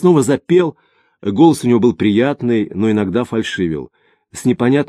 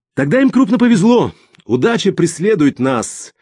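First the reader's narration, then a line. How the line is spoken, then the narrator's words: Laughing. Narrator (Russian): Смеясь, он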